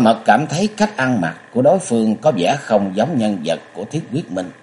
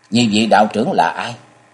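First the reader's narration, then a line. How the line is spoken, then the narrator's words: Cold voice. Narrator (Vietnamese): bà cất giọng lạnh lùng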